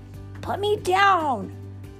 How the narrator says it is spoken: yelled Mowgli

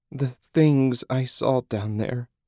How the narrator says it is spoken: sobbed

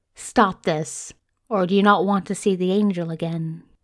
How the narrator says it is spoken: Crowley chuckled

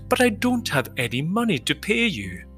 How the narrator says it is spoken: The Queen exclaimed

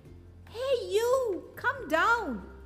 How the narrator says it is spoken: yelled

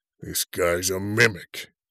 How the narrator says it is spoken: he grumbled

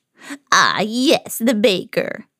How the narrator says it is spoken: the old woman said, laughing

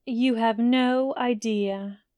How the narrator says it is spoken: McGonagall sighed, frowning

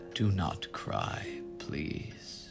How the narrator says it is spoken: whispered

